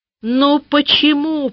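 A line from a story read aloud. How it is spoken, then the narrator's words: Near shout. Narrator (Russian): почти закричала я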